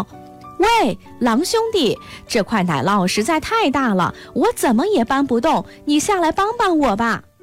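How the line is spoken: Rooster shouting from well. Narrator (Chinese): 公鸡在井里大声喊道

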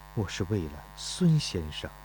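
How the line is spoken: Muttering. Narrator (Chinese): 钟离春喃喃地说道

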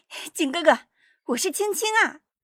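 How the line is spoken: Childlike shout. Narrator (Chinese): 稍带童音地再喊

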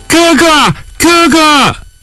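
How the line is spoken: Distant calling. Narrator (Chinese): 远远的有人在叫

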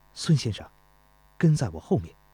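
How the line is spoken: Low voice. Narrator (Chinese): 钟离春低声说道

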